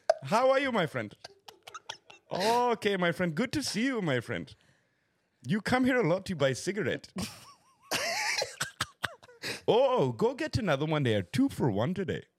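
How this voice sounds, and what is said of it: Put-on Indian accent. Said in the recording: “can you actually do the great Indian accent?”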